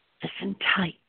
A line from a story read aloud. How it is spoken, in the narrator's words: she whispered in Perlish with a tight voice